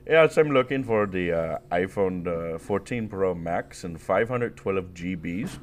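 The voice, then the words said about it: Put-on Indian accent. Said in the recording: “the Indian guy voice”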